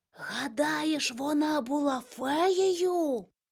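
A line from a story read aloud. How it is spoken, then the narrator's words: Excited whisper. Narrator (Ukrainian): від хвилювання Григорик зашепотів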